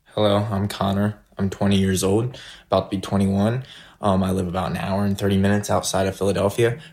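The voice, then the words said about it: Out of breath, breathless speech. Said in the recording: “You can tell I'm out of breath. Can't even breathe.”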